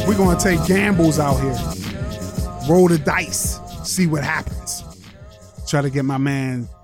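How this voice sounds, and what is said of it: Put-on hyped-up fake voice. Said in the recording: “What's up with this fake voice?”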